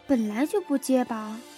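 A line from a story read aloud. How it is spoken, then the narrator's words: Low protesting voice. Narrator (Chinese): 艾露低声的反抗道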